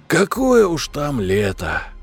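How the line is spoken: Sighing. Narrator (Russian): Вздохнул я

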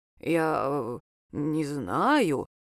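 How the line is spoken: Hesitant drawl, old man. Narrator (Russian): неуверенно протянул старик

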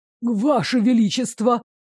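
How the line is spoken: Loud whisper. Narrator (Russian): громко прошептала

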